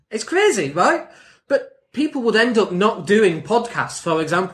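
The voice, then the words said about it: Northern English accent. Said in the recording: “the English accent and the Northern accent ... I'm from Leeds. What do you mean you love this accent? ... I sound like this”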